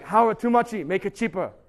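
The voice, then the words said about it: Imitates another person's accent. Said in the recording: “That's his accent. It's like, too muchy. He actually says muchy.”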